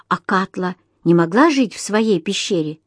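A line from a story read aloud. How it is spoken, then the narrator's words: Plain question. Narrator (Russian): спросил я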